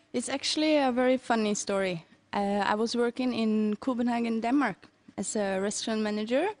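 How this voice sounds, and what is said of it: Norwegian accent. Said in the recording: “Norwegian ... I love that accent. ... From Oslo, right?”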